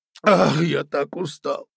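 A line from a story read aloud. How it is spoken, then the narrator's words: Tired sob. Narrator (Russian): всхлипнул Карабас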